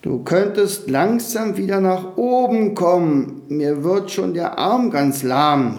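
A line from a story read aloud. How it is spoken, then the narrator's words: Calling out to grandson. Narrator (German): rief Tommy am unteren Rand der Wolke seinem Enkel zu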